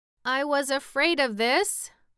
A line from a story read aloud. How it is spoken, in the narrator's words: moaned the pumpkinhead